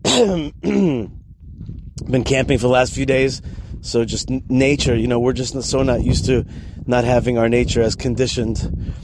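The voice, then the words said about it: Voice sounds a little off. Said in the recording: “sorry about my voice. It's a little bit funny.”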